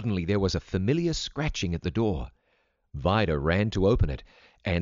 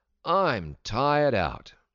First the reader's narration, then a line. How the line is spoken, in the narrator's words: he exclaimed as he dropped on the couch